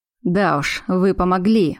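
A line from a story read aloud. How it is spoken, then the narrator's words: Scoffing snort. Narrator (Russian): хмыкнул Поляков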